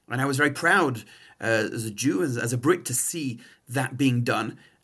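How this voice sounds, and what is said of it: English accent. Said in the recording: “my accent is not Canadian, I'm from England”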